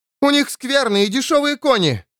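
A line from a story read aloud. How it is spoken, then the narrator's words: Shouted over shoulder. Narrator (Russian): крикнула Бекка через плечо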